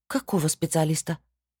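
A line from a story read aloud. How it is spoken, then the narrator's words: Mutter. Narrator (Russian): Пробормотала я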